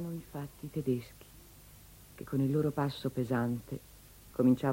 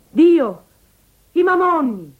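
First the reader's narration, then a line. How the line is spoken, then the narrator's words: Shouting. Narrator (Italian): costei fu sentita gridare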